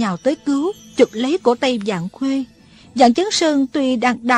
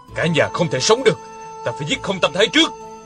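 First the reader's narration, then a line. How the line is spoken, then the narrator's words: Stern voice. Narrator (Vietnamese): Dặn Khuê nghiêm giọng nói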